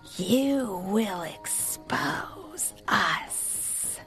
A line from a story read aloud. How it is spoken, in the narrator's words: the tiny fennecs hissed in angry whispers